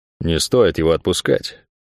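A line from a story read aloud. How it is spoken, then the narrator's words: Advising. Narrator (Russian): посоветовал он ей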